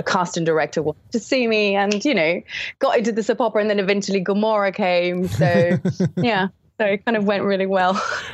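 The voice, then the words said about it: London English accent. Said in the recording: “Because your English is very kind of London, you know, he sort of has an English accent. I mean, you actually probably wouldn't know you're Italian with your accent. ... it sounded very London”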